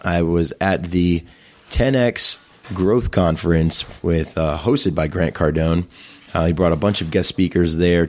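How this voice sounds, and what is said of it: Strained, worn-out voice. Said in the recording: “please excuse my voice. It is still recovering from this awesome weekend”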